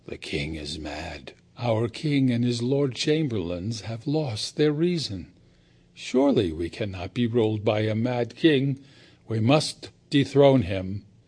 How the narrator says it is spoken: the people did naught but whisper to one another

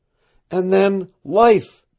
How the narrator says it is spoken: she cried

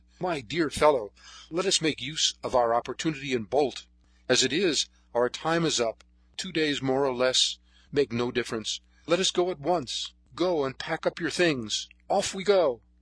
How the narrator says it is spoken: he exclaimed

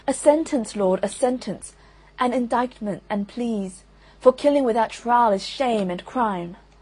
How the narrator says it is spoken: they cried all with tears

